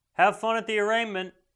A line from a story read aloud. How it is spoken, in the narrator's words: he shouts